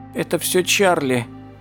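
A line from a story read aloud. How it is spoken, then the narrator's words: Thin, frightened objection. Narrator (Russian): тоненьким испуганным голосом возразил Пит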